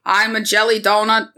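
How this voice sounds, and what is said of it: Nasal old-Boston politician accent. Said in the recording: “the more JFK accent ... It's just nasal.”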